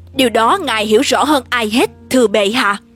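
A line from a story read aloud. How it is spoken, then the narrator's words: Plain. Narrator (Vietnamese): Hegon nói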